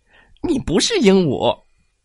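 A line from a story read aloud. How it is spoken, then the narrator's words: Loud laughter. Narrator (Chinese): 猴子大笑着说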